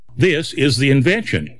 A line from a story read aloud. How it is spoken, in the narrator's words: he said